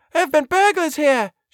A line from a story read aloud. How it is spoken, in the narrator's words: she cried excitedly